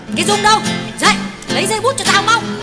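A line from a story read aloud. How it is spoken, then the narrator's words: Woman shouting at daughter. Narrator (Vietnamese): Tuyết quát con gái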